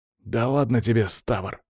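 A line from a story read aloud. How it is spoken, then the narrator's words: Gruff mutter. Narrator (Russian): буркнул он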